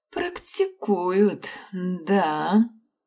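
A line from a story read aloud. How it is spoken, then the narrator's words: Drawled. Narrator (Russian): протянула Вивьен Грей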